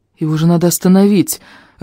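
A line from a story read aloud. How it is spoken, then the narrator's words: Timid, hopeless. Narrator (Russian): робко проговорил я, понимая тщетность попытки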